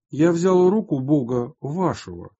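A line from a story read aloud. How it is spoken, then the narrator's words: Plain. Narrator (Russian): сказал он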